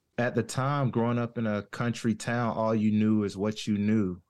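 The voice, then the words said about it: Southern US accent. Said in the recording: “I could gather you were somewhere below the Mason-Dixon from your accent ... Definitely from the South.”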